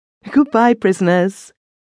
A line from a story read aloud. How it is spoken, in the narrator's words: She would laugh roguishly, call out gaily